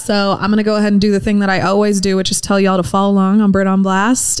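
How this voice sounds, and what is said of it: Calm, smooth radio-host voice. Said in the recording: “I'm so calm today that that felt weird ... You have a legit podcast voice. It's beautiful. ... like Sunday nights like slow jams and she's like welcome. It's Delilah.”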